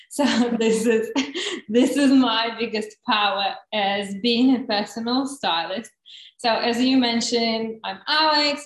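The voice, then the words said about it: Noticeable foreign accent. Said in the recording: “You can probably hear my accent.”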